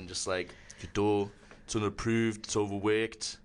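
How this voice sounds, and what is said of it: British accent, imitates another person's voice. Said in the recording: “What's your best British accent? ... I've been doing the Paul Hollywood from Great British Bake Off.”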